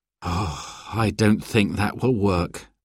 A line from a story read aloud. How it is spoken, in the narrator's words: sighed Dad